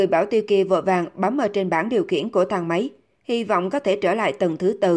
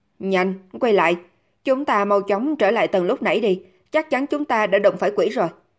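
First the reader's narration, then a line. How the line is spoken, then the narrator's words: Hurried loud shout. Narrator (Vietnamese): Ông ta vội vàng hét to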